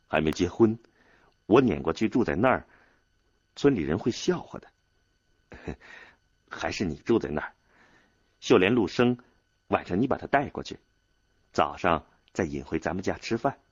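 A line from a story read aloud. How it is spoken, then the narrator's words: Smiling, gentle. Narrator (Chinese): 少安 笑了笑说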